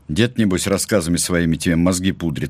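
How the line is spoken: Snorting chuckle. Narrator (Russian): хмыкнул Валерий Викторович

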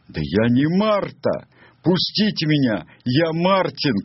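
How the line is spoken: Desperate shouting. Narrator (Russian): кричал несчастный пленник

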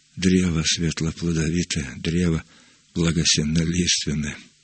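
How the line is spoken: Mumbled. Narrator (Russian): пробормотал он

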